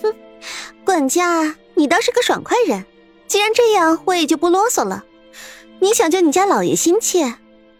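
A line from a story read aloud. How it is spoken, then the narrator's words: Sneering laugh. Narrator (Chinese): 王莲儿索性也冷笑一声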